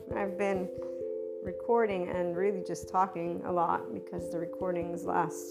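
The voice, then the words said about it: Lower, strained voice. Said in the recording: “my voice is a bit lower”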